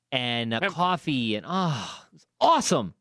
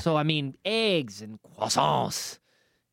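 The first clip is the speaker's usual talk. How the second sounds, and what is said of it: Put-on French accent. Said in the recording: “that was my French accent.”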